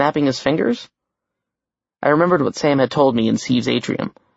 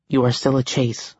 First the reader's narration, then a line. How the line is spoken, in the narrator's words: I said quietly